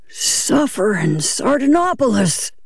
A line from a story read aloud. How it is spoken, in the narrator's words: cried